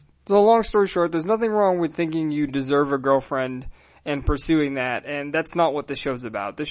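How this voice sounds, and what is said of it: Usual voice. Nothing is said of it.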